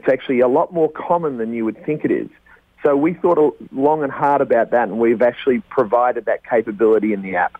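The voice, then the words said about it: Speaker with a noticeable accent. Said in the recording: “I'd love to keep you on for the next four hours just with that accent alone”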